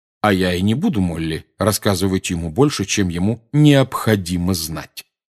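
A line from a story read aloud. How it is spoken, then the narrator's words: Plain. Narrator (Russian): сказал Сириус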